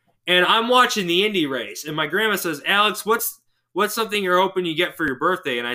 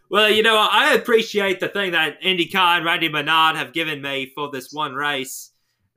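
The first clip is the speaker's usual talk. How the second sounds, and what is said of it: Poor impression of another person's voice. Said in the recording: “My best Dan Weldon impression. It's not good. ... That's closer to Steve Irwin, honestly.”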